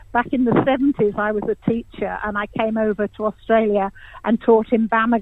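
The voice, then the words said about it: English accent. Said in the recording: “You can probably hear my accent. I'm English”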